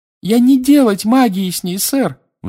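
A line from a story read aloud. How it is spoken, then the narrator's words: Shrill squeal. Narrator (Russian): взвизгнула Винки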